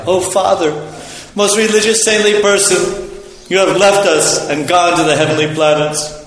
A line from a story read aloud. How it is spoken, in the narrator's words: Virtually bewildered by grief, anger, indignation, affliction, and lamentation, the sons of Jamadagni cried